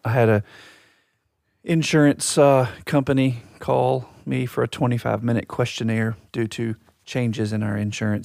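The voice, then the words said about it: Raspy, husky voice. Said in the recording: “I don't have good podcast voice today... It's raspy... It's sultry... It's like I've been smoking cigarettes”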